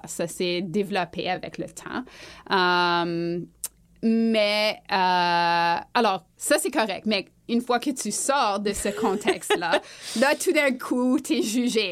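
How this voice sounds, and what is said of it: Manitoban French accent. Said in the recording (French): “j'ai un accent manitobain”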